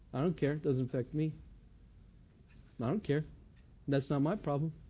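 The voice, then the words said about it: Imitates a dismissive teenager. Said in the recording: “my impersonation of a teenager”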